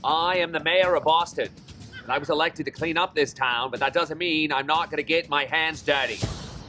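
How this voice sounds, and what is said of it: Upscale Boston accent. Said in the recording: “The politician with the upscale Kennedy type Boston accent.”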